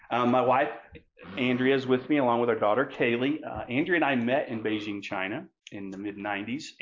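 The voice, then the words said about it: Southern US accent. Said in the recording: “It's taken me 40 something years, I think, to get rid of a Southern accent, but it's still not gone.”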